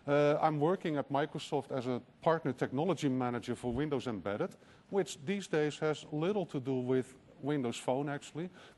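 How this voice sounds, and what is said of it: Dutch accent in English. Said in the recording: “My funny accent is from the Netherlands, actually.”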